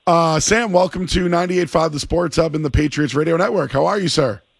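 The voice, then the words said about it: Strained, hoarse-sounding voice. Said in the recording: “what happened to my voice? ... Excuse my voice. I don't know what happened to me today.”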